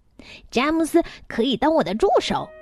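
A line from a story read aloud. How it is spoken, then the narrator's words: Loud shout. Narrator (Chinese): 我大声的喊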